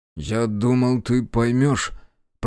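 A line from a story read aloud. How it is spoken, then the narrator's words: Mumbling. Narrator (Russian): промямлил я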